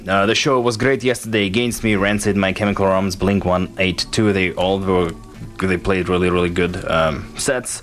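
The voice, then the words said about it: Russian accent. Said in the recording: “I have an accent, and I was born in Russia. I'm originally from Russia, from Siberia”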